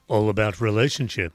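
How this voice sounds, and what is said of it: Exaggerated deep voice. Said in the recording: “Oh dear, that was very deep. ... the man with the deep voice”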